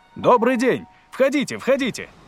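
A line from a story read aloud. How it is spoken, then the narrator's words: Shouted. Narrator (Russian): крикнул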